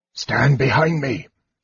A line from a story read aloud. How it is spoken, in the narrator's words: ordered Raistlin in a hoarse whisper